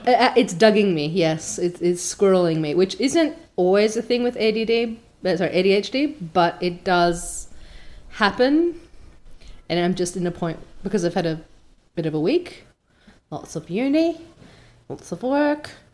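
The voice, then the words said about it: Australian housewife voice. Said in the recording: “you've even backed into an Australian housewife voice there ... my accent is going to be very shuffly today”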